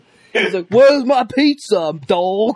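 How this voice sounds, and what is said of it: Bad put-on Bronx accent. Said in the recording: “That was a bad fucking Bronx accent.”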